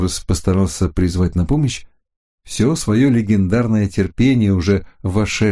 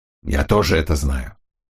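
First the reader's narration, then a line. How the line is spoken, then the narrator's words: Angry. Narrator (Russian): сердито отозвался тот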